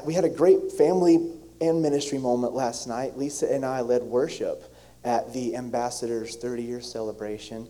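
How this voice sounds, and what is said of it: Slightly hoarse voice. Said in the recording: “my voice is a little bit hoarse ... I got way too excited and sang really”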